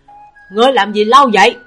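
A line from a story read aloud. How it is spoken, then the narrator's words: Shouting. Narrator (Vietnamese): Trình Hoài Lượng hét lên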